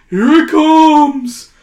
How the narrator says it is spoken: a voice cries

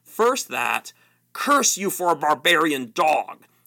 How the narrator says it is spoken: spluttered Rabadash

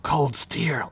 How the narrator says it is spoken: Ugla whispered

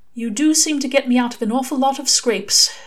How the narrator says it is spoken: Aziraphale said, almost wistfully

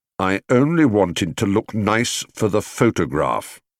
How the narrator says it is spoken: he said firmly

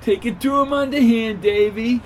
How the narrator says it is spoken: yelled

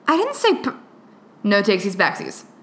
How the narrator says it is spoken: Stiles says sternly

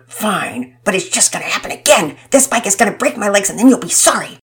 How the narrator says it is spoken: I would angrily mutter

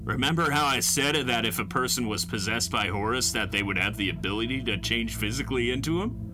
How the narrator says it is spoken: Doug asked me

